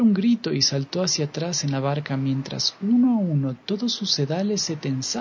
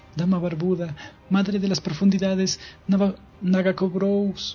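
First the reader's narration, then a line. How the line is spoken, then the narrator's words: Sobbing. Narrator (Spanish): sollozó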